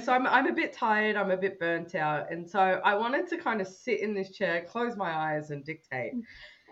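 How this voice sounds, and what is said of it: Mild Australian accent, nasal. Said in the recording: “My Australian accent ... Not even like a really thick Australian accent ... I sound like I'm talking through my nose half the time”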